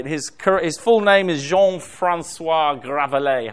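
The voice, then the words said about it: Put-on French accent. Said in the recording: “How'd you like that for my French accent?”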